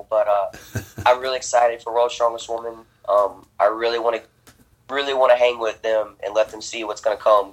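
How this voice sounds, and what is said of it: Congested, stuffy-nosed voice. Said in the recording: “I'm really sick, so that's why I'm all snuffled up and I sound terrible.”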